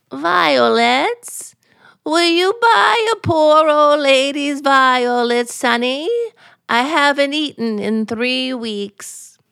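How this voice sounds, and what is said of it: Quavering bleating old lady voice. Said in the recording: “you sound like a goat.”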